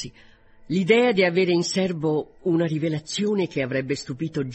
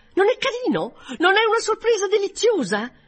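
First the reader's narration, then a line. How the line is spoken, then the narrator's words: Triumphant exclamation. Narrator (Italian): con aria di trionfo, esclamando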